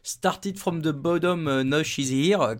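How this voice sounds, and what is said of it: Put-on English accent. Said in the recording (French): “comme disent les Anglais avec mon accent incroyable”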